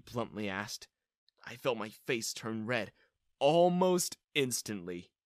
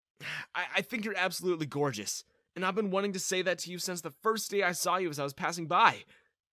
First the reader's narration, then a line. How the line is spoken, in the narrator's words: I blurted out, gaining certainty as I continued